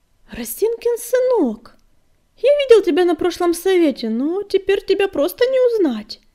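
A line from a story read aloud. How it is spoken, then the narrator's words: Exclaiming. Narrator (Russian): воскликнул Огнегриф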